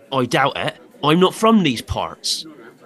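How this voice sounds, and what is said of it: Suddenly changed disguised accent. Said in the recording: “You just changed your accent.”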